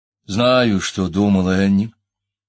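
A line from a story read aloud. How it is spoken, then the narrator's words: Soft confirmation. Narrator (Russian): мягко подтвердил он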